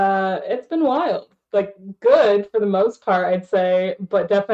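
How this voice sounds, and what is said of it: Usual voice. Nothing is said of it.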